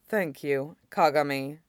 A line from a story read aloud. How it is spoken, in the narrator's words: Tobirama says solemnly